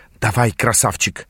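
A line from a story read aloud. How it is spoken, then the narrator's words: Hissed. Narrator (Russian): прошипела Тананда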